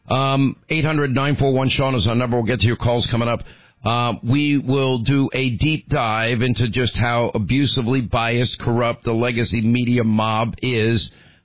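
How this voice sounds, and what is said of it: Hoarse, laryngitis-affected voice. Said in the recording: “I don't want to hear it about my laryngitis.”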